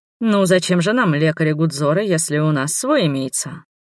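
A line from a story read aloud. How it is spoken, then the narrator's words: Snorting remark. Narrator (Russian): хмыкнул он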